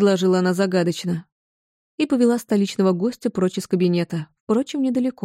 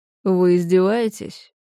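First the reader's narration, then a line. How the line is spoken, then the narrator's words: Weary question. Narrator (Russian): Устало поинтересовался Уинтроп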